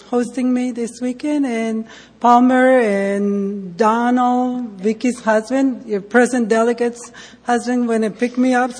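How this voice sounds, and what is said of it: Heavy Mexican accent. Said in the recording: “I am from Mexico, so that's where my heavy accent comes from. ... my accent doesn't go away.”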